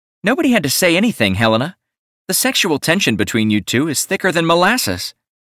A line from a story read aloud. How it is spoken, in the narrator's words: Leah snorted and piped up with